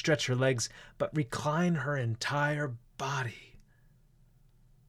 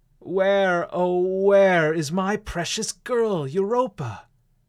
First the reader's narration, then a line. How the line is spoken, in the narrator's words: cried